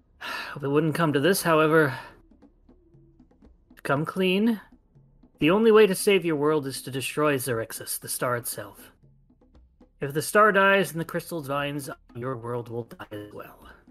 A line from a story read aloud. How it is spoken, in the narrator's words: She sighs a bit and says